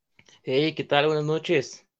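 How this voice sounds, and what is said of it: Northern Mexican accent. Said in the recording (Spanish): “hasta ... se salió el acento norteño”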